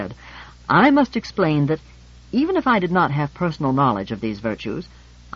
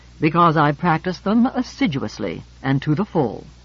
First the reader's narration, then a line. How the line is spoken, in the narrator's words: said George haughtily